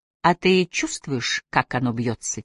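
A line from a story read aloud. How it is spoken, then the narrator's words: Quiet question. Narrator (Russian): тихо спросила Сиклиф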